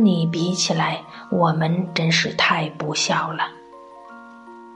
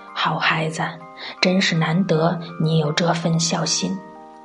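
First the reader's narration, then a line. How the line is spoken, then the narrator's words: Gentle tone. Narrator (Chinese): 用温柔的口气说道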